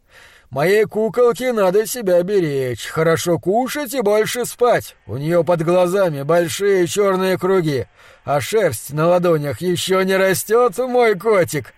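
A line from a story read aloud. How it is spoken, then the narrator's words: Loud guffawing. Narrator (Russian): Он громко заржал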